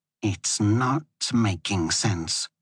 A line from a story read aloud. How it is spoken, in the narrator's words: Moya muttered to herself